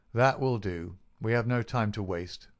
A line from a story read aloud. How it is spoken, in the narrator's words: said my companion firmly